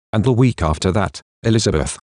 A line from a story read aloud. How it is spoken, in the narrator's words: he says calmly